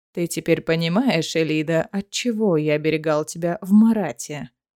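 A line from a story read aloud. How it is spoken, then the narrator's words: Insinuating soft question. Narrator (Russian): вкрадчиво спросил Варнан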